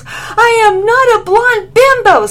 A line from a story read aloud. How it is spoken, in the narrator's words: screamed Lily